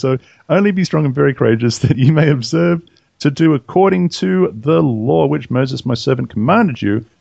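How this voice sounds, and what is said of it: Australian accent. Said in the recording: “they don't have Australian accents, y'all ... most of them don't have Australian accents”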